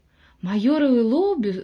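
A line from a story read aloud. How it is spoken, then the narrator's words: Surprised exclamation. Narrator (Russian): в удивлении воскликнул Бикман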